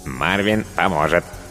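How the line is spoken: Cartoonish robot voice. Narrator (Russian): подтвердил робот мультяшным голосом

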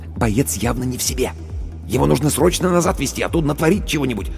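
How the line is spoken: Whisper. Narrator (Russian): Командир медотделения шепнул

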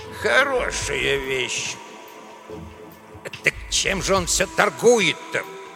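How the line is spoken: Grumbling. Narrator (Russian): Пытаясь протолкаться поближе, ворчал Эдуардо

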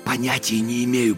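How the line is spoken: Whispered. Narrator (Russian): прошептал я

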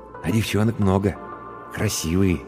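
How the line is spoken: Quiet. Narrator (Russian): тихо сказал Иван

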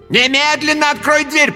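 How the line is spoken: Shouted. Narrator (Russian): прокричала Ниниэль Джалиновна

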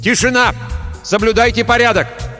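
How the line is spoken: Shouting. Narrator (Russian): Эрик крикнул

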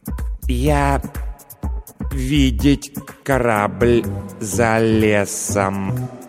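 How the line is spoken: Slow deliberate speech. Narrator (Russian): медленно произнес лингвампир

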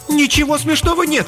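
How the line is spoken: Indignant exclamation. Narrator (Russian): пылая праведным гневом, воскликнула Мередит Луна

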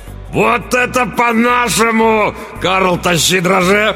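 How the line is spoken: Roaring. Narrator (Russian): Взревел тот

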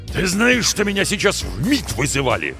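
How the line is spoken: Barking boss. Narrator (Russian): гаркнул шеф

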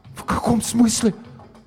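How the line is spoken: Incoherent stunned whisper. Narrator (Russian): Несвязно шептал Гоша, ошарашенно

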